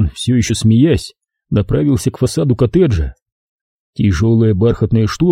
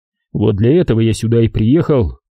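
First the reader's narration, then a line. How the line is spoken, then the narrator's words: Laughing. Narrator (Russian): Он рассмеялся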